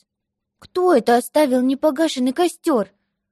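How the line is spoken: Exclamation. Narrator (Russian): воскликнул он

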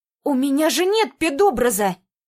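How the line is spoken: Indignant exclamation. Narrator (Russian): воскликнула возмущенно в ответ

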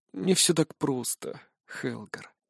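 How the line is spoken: Sad. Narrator (Russian): грустно отвечает Беренгар

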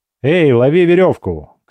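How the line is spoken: Shouted. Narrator (Russian): крикнул я

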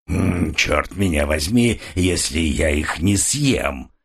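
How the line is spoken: Menacing. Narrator (Russian): продолжал человек, грозно качая головой

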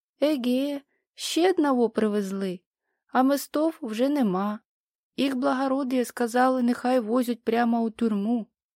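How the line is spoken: Hoarse indifferent voice. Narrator (Russian): кто-то низенький, толстый и серый, как туман, сказал сиплым равнодушным голосом

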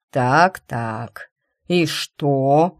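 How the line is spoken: Drawn out. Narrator (Russian): протянул он

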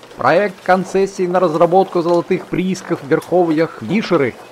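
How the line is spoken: Loudspeaker blaring. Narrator (Russian): кричал громкоговоритель

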